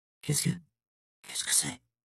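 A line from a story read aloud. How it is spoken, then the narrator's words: Stammered. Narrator (French): balbutia Robin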